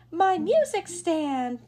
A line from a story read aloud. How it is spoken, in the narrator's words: chirped the bird